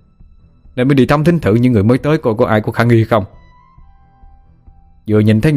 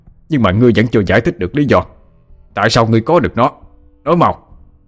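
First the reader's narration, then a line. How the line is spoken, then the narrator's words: Angry shout. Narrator (Vietnamese): Tà sư Linh quát lên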